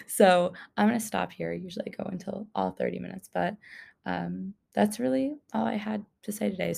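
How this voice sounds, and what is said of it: Very raspy voice. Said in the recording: “my voice has been sounding like, I don't know, very raspy.”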